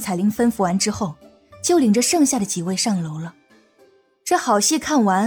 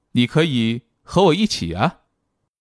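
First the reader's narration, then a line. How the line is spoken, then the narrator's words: With a slight smile. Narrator (Chinese): 欧阳靖宇微微一笑，说道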